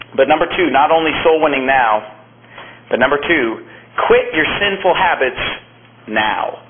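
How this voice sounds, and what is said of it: Strained, fading hoarse voice. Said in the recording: “I'm losing my voice a little bit today ... I was almost really losing it completely, unable to speak”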